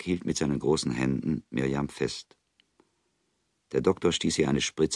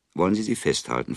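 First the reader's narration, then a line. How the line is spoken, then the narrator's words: Plain question. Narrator (German): fragte der Doktor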